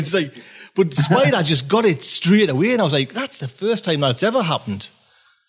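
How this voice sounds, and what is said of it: Geordie northeast English accent. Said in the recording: “Is your accent? What we call a Geordie from the northeast of England? ... Spider Robinson nailed it on the head”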